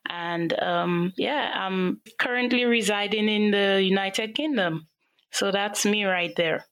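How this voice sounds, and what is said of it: St. Lucian Caribbean accent. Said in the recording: “as you can hear from the accent, I'm Afro-Caribbean, so specifically St. Lucia.”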